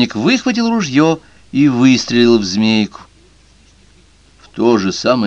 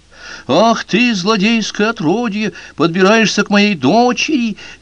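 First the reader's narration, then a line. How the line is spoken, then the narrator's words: Angry shout. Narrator (Russian): закричал в гневе охотник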